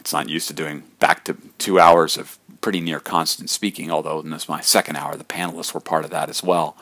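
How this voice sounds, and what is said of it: Slightly hoarse voice. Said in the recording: “my voice is a little hoarse from all that”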